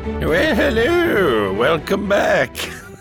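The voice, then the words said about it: Silly old woman voice. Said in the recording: “silly voice ... a sad attempt at Miss Doubtfire ... becomes an old woman”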